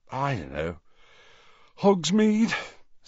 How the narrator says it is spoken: suggested Ron, yawning

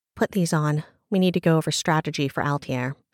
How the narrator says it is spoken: Seraphina sighed

